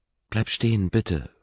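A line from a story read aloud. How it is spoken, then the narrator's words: Pleading. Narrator (German): fleht Anna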